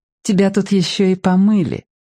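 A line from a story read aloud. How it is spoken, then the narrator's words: Soft answer. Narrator (Russian): ответила она мягко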